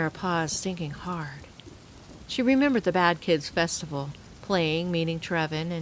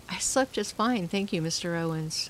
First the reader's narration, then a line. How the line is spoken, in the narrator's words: she replied